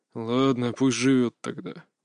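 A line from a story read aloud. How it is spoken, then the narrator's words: Muttering father. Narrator (Russian): буркнул отец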